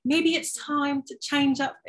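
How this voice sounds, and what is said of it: Put-on British accent. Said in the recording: “It was like British, that's why I did this accent.”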